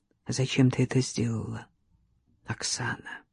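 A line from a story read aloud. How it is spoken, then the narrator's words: Quiet question. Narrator (Russian): тихо спросил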